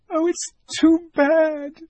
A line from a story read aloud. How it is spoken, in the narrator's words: sobbed Lucy